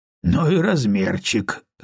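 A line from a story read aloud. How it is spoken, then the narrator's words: Snorting. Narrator (Russian): хмыкнул Том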